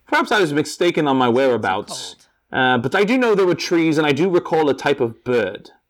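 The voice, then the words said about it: Put-on British accent. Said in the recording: “You just listen to my to my accent, my dialect. It's quite United Kingdom. Screams United Kingdom.”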